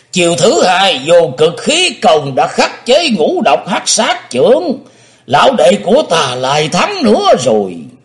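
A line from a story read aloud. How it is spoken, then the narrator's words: Loud laughter. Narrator (Vietnamese): Lạc Thủ Thần Ma Thân Nhất Túy cười lớn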